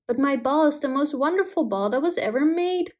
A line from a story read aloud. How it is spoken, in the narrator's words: cried the little prince